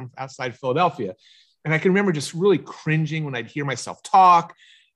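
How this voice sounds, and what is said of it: Philadelphia accent. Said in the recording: “I have a Philly accent.”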